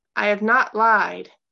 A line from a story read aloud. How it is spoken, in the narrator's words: Gabe called out, his voice stronger